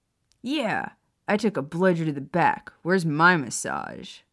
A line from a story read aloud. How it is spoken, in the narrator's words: Sirius asked, grinning